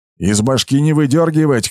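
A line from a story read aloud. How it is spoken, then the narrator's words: Shout. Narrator (Russian): крикнул Брахма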